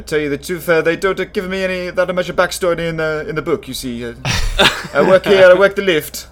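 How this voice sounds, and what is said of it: Speaks with a marked accent. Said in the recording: “an accent like this?”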